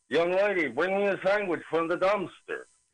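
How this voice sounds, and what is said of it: Blended cartoon character voice impression. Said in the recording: “you put the two voices together ... That's a really good impression.”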